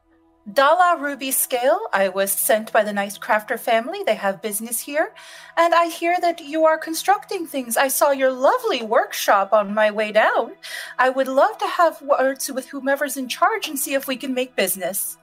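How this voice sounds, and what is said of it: Character voice with slight accent. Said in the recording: “her best kind of impersonation, like her mom ... Even adds in a little bit of that Jaylen like accent.”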